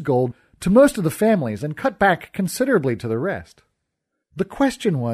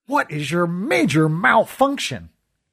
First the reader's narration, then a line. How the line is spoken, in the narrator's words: I sputtered